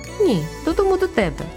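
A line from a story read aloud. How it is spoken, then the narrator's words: Sigh. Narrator (Ukrainian): я зітхнула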